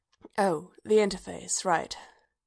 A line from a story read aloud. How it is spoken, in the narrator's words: Bodhi murmured